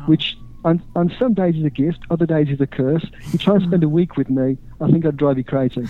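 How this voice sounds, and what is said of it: English Staffordshire accent. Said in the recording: “that accent. With that accent, we're okay. ... Originally from Staffordshire in England”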